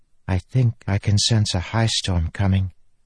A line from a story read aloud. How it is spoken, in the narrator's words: she whispered